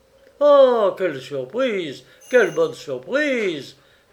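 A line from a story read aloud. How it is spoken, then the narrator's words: Exclaiming. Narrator (French): s'écria Albert Testa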